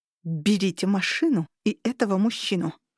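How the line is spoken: Through clenched teeth. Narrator (Russian): процедила я сквозь сжатые зубы

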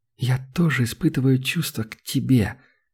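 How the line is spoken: Soft whisper. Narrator (Russian): тихо прошептала

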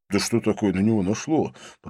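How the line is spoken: Muttered. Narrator (Russian): пробормотал Винсент

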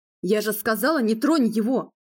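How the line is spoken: Loud bark. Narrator (Russian): гаркнула

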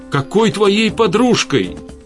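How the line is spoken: Shouting. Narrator (Russian): выкрикнула Светлана

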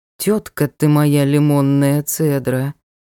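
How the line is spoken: Drawled. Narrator (Russian): протянул темный лорд

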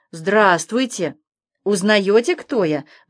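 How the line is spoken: Kind deep bass. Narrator (Russian): добрым басом объявил с порога самый настоящий Дед Мороз

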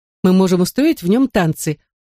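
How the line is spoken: Giggling. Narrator (Russian): Она хихикнула

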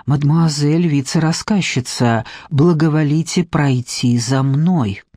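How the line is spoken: Butler's discreet whisper. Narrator (Russian): мажордом, деликатно кашлянув у нее над ухом, прошептал

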